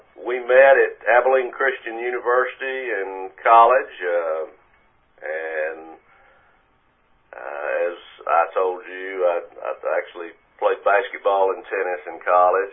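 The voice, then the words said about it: East Texas Southern accent. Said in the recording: “good old Southern boy, Texas charm, you know, voice ... As you can tell from my accent, I'm East Texas.”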